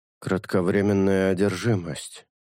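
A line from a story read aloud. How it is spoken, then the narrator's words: Thoughtful mutter. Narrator (Russian): задумчиво пробормотал шелк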